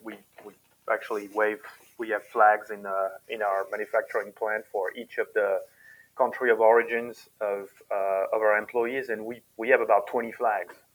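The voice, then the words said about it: Non-native foreign accent. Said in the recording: “by my accent, you can hear that I'm one of them.”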